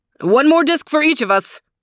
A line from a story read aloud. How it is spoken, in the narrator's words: he barked